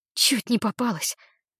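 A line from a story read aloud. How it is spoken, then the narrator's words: Breathless exhale. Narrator (Russian): выдохнула я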